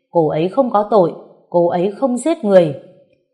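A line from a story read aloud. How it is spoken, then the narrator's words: Angry uncontrolled shout. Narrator (Vietnamese): Ngô Bách Duy dường như mất kiểm soát, quát lên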